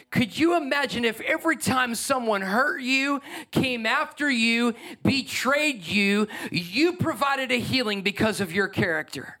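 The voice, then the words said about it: Yelling passionately. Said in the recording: “why are you yelling? ... Why are you getting this passionate about compassion?”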